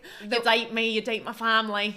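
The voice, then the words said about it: Imitates another person's accent. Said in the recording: “That was a good accent.”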